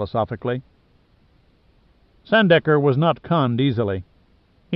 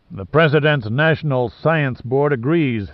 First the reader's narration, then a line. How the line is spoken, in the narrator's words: Sandecker growled